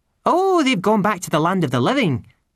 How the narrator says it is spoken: said cheerfully

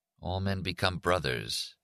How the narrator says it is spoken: said under his breath

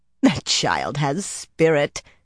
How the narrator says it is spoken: Cerulea laughed

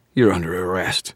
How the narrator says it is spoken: wheezed

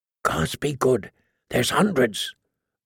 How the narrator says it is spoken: a voice said softly

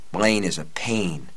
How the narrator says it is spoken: Jake muttered

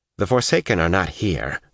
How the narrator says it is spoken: Avienda snapped

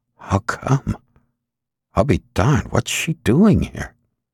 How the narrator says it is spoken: Al grunted in surprise and said under his breath

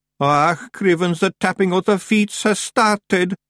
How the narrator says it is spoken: moaned Daft Woolly

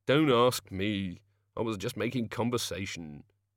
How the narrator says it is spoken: said the Ogod

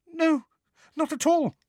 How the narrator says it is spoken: squeaked Hermione

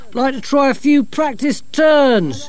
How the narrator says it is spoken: shouted Dorcas

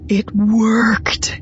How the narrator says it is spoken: he breathed, awed and delighted

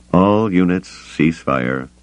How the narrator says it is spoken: he said, his voice tired

